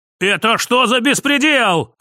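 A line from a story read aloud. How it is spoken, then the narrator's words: Yelling. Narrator (Russian): орал тип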